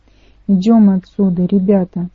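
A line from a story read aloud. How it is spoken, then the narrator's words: Plain. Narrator (Russian): сказал Трэвис Толл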